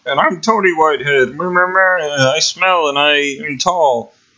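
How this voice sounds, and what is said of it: Imitates another person's voice. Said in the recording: “why are you talking like that? You sound so different than what you normally sound like... doing a really spot-on impression”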